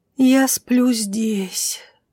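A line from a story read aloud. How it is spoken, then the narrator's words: Blissful moan. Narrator (Russian): блаженно простонала Лайза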